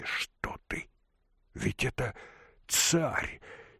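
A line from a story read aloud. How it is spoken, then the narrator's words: Whispered. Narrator (Russian): Алешка шепнул Алексашке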